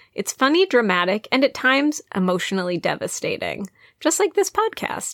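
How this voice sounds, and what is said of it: Polished announcer-style podcast voice. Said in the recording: “Well read. ... I used my podcast voice.”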